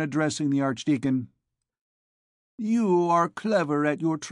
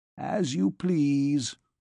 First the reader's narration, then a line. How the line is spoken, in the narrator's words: replied Quartier dryly